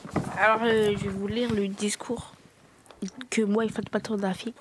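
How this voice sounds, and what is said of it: Whispering. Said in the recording (French): “Pourquoi tu chuchotes là?”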